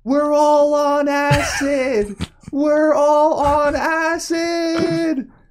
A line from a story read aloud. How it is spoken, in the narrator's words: yelling